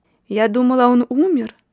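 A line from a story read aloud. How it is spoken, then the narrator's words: Woman's shout. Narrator (Russian): крикнула одна женщина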